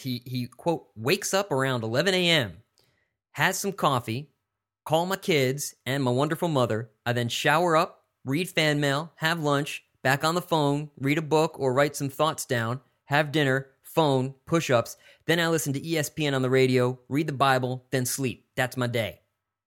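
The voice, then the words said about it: Put-on letter-from-prison reading accent. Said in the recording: “What's the accent ... That was my, let's read a letter from prison accent.”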